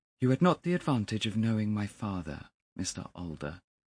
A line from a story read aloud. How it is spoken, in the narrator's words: he said coldly